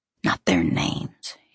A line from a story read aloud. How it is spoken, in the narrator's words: he whispers sharply